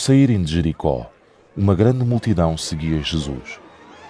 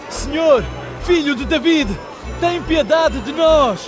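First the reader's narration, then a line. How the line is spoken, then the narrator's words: Shouting ever louder. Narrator (Portuguese): gritavam cada vez mais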